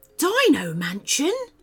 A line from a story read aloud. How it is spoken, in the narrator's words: said Paxton the dinosaur excitedly